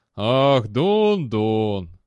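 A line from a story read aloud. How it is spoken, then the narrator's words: Sighing. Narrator (Russian): он вздохнул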